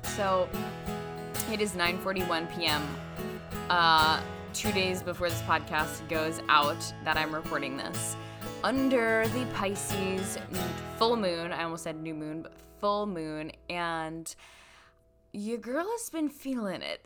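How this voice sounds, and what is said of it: Relaxed, flowing late-night voice. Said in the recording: “my voice is very like flowy, end of day”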